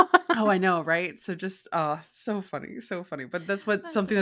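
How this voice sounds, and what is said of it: Usual voice. Nothing is said of it.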